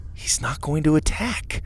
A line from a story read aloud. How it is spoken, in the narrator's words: Lydia whispered